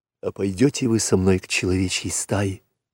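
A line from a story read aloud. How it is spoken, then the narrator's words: Whisper. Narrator (Russian): прошептал Маугли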